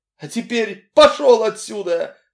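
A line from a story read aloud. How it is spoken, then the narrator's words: Sobbing shout. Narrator (Russian): рыдая, выкрикнула она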